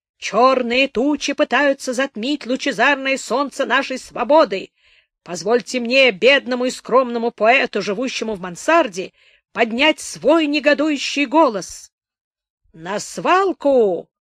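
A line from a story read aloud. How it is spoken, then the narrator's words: Clear, resolute, slightly coarse. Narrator (Russian): Ясным и решительным, но несколько грубым голосом сказал кто-то в толпе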